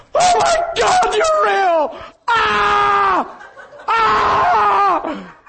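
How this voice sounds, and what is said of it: Screaming loudly. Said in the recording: “I'm screaming louder than you can imagine”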